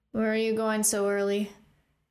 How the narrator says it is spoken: Killian said in a groggy voice

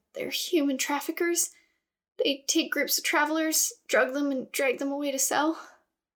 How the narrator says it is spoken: She looked around at the others nervously, then said

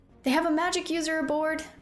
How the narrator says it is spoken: Rune shouted

